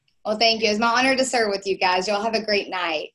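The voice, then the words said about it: Southern American accent. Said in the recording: “the oh my golly and her southern accent”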